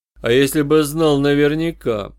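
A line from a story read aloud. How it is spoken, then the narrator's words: Insinuating. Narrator (Russian): вкрадчиво продолжал я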